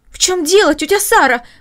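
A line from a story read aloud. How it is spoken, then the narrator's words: Exclaiming. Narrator (Russian): воскликнула Маша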